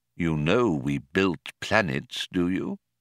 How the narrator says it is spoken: asked solemnly

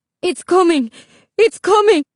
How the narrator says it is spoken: Isabel's mother cried out

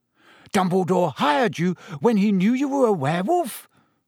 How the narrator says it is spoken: Ron gasped

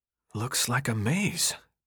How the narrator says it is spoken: Thomas whispered, almost laughing to himself, as if things couldn't have gotten any stranger

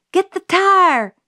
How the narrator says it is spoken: Jim hollered

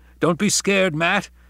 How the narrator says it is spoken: he cried exultantly

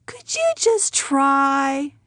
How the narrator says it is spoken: she pleaded

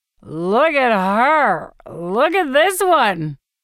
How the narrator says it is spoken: he hollers

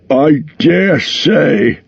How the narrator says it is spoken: grumbled Bomber

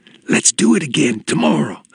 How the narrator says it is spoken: whispered

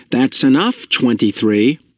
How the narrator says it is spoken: a parent, exasperated, call sharply

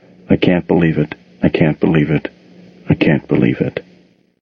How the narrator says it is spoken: she mumbled over and over

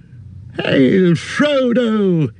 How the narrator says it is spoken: he cried

